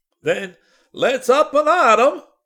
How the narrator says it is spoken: howled Walrus

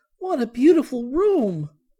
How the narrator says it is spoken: cried Violet

